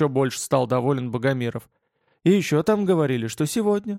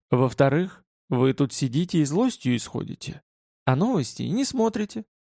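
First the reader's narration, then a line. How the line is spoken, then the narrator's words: Insinuating tone. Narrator (Russian): вкрадчиво произнес он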